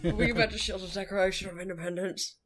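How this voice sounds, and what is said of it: Poor impression of an actor's voice. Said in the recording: “worst Nick Cage impersonation known to man”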